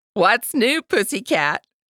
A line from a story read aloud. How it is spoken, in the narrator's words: Aunt Star roared with laughter on the other end of the line